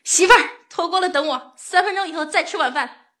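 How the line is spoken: Shouting. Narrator (Chinese): 他就冲屋里大喊

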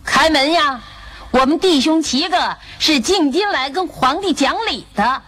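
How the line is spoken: Shouting. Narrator (Chinese): 老大大壮士喊道

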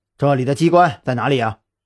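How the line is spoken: Cold interrogation. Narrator (Chinese): 张扬冷声质问

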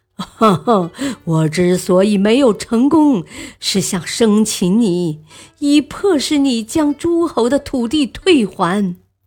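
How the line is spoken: Loud laughter. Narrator (Chinese): 荆轲大笑说

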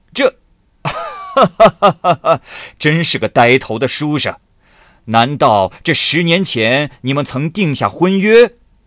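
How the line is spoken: Laughing. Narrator (Chinese): 鲁王笑着说

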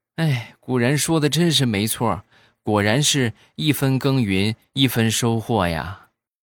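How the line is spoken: Child, long sigh. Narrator (Chinese): 小家伙长叹一口气，然后说

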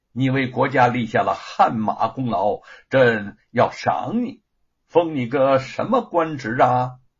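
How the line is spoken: Smiling. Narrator (Chinese): 嘉靖笑着说

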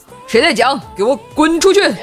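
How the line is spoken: Sudden roar. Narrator (Chinese): 他突然咆哮

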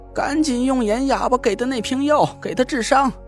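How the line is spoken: Shouting. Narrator (Chinese): 梧桐对他喊道

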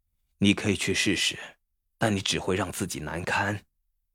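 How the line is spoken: Sighing. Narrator (Chinese): 他叹息着说

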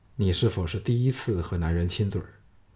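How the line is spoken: Soft, tender. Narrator (Chinese): 项少龙柔声说

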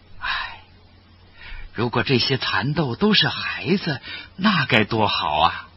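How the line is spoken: Sighing old woman. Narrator (Chinese): 老婆婆……叹息着说

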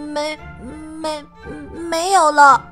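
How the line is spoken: Stammering. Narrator (Chinese): 我结结巴巴的说

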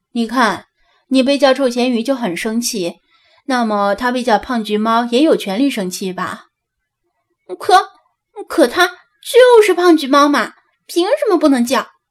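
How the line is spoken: Calm laughing. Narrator (Chinese): 张子安淡定的笑道

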